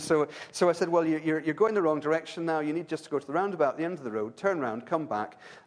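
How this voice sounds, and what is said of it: Irish accent. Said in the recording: “my accent ... I can't trust the Irish”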